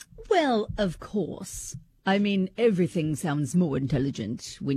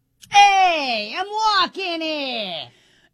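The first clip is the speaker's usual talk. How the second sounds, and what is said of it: Put-on New York accent. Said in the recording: “accent that we find least sexy is a New York accent”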